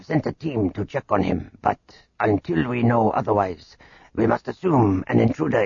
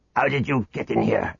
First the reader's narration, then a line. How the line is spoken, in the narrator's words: Garak snarled